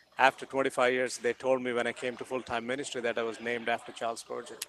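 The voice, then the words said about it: South Indian English accent. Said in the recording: “your accent, but your accent ... you're not from around here ... I'm from India, South India”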